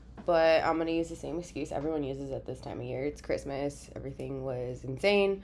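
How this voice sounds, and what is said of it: Congested, odd-sounding voice from cold. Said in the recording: “I'm currently still have a cold. I'm sure you can tell by my weird voice.”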